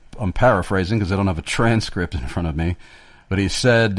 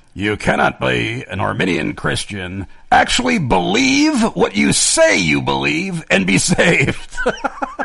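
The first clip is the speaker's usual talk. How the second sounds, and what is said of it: Imitates another person's voice. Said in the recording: “that is an amazing impression of John Gerstner... That is stunning... barely discernible from R.C. Sproul's accent”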